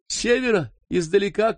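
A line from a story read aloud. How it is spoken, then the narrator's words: Distant shout. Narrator (Russian): крикнул Ким с гор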